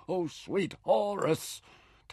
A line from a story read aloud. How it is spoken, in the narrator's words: Taita groaned